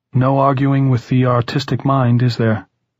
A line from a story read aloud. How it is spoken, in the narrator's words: Tom asked sadly